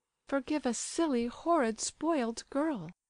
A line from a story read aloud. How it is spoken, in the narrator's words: Aglaya rather timidly said to him